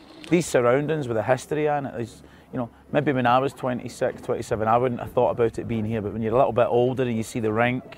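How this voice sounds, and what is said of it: Strong regional accent. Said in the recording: “what a strong accent”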